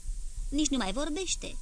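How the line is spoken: Plain. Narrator (Romanian): zise Aureliano

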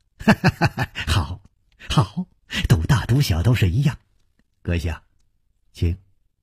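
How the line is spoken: Slight smile. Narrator (Chinese): 冷秋魂微微一笑

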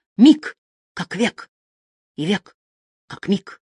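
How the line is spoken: Muttered. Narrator (Russian): пробормотал

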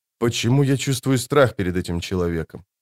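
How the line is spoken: Whispered question. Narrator (Russian): Пауль шепотом спросил

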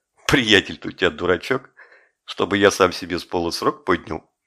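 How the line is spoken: Quiet mocking laugh. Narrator (Russian): Кирпич засмеялся мне прямо в лицо, тихо сказал

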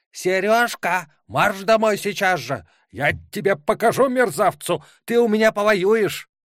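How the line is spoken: Unrestrained angry shout. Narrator (Russian): охваченная этими мыслями, Антонина Васильевна, уже не сдерживая себя, закричала

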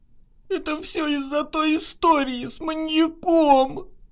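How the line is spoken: Sobbed. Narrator (Russian): прорыдала она

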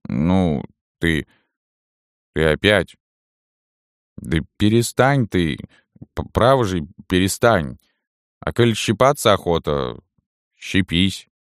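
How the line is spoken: Slightly hoarse, soft, caressing. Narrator (Russian): Он обыкновенно говорил несколько хриплым, тихим, ласкающим голосом

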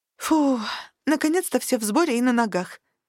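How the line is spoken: Relieved exhale. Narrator (Russian): с облегчением выдохнула я

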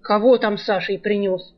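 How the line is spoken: Irritated. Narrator (Russian): раздраженно хозяин

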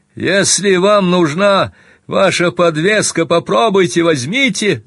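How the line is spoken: Shout. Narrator (Russian): закричал

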